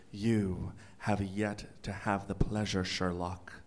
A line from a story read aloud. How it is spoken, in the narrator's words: whispered